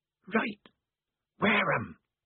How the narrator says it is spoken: said the mystery voice hoarsely

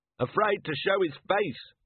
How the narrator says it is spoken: someone shouted

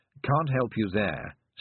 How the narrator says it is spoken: said the toad

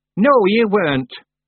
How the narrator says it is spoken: said Miss Treason sharply

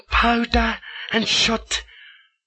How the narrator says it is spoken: cries Jiendon

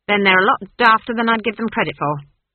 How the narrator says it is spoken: she snapped

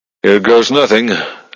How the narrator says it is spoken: Strathmore groaned

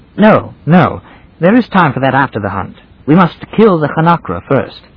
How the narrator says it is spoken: It was in obedience to something like conscience that he exclaimed

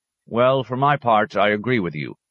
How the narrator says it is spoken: said Thonterio

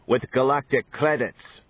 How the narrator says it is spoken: snapped Sir Robert

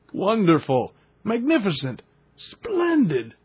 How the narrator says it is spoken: cried my uncle

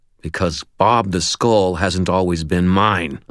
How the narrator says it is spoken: I growled

